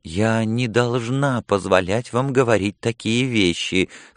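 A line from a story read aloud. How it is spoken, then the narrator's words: Weak protest. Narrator (Russian): слабо протестовала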